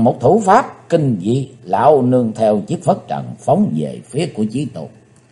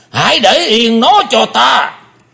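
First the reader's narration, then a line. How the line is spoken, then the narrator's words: Deep heavy roar. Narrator (Vietnamese): Lão ta nặng trầm quát lớn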